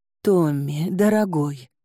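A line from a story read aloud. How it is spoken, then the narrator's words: Breathless, partly composed. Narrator (Russian): выдохнула я, хоть отчасти восстановив самообладание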